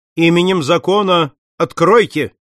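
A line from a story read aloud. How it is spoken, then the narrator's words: Shouted. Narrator (Russian): Пинкертон крикнул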